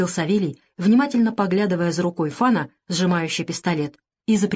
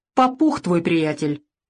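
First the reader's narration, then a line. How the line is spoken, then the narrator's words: Nervous chuckle. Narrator (Russian): Савелий нервно хохотнул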